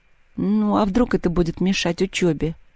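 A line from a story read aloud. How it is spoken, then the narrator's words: Very sad. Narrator (Russian): совсем грустно сказала Маша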